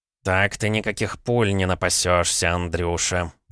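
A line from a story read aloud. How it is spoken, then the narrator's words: Grumbling. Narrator (Russian): проворчал Савелий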